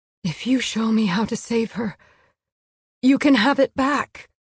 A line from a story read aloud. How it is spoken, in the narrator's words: she whispered